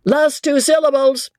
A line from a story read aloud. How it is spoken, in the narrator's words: roars the head